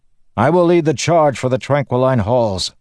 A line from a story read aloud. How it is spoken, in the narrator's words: the man shouted